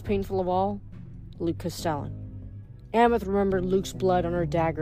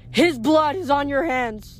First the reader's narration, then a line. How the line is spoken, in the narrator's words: the river wailed